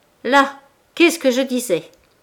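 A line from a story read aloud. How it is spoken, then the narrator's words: Beside herself, shouting. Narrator (French): cria la première hors d'elle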